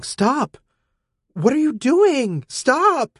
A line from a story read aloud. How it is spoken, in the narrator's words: Elytra yelling